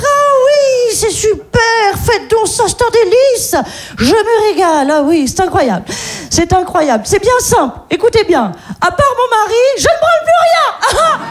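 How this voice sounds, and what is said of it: Posh upper-class French accent. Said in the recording (French): “parfaite maîtrise de l'accent de riche”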